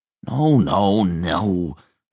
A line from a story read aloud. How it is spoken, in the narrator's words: growled Towser